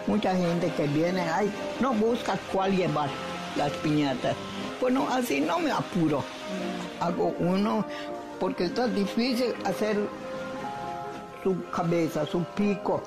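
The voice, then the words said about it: Strong Mérida Yucatán Spanish accent. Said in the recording (Spanish): “en Mérida ese acento la eh, lo hace muy evidente”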